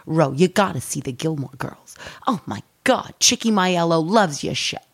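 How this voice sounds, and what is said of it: Sopranos-style Italian-American accent. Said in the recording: “you sound like Ro from The Sopranos ... how funny that accent is”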